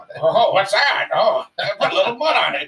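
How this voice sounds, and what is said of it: Bad impression of cartoon reindeer voice. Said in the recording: “doing his voice ... That voice. My horrible Comet impersonation.”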